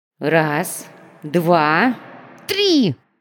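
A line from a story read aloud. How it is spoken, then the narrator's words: Sharp exclamation. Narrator (Russian): выкрикнула она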